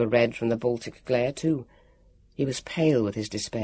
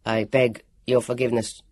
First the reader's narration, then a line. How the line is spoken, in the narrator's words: he said stiffly